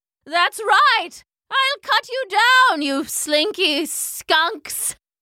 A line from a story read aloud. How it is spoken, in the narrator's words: shouted Major Mallow